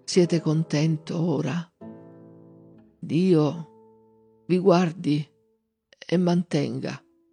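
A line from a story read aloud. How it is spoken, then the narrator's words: Faint voice in ear. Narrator (Italian): con voce mezza spenta gli disse all'orecchio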